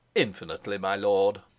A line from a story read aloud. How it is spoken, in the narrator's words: answered Bernenstein stiffly